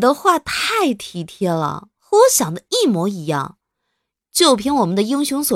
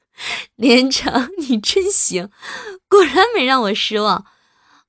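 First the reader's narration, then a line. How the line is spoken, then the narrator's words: Hearty knowing laughter. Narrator (Chinese): 苏仙慧会意的哈哈大笑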